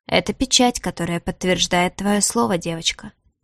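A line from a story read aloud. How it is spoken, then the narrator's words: Purring. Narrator (Russian): промурлыкал Элиас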